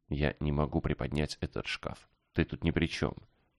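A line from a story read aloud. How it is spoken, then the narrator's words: Guilty whisper. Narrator (Russian): Помолчав, она с виной в голосе прошептала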